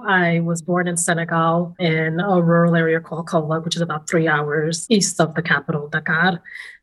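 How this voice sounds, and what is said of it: New York accent. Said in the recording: “have the New York accent”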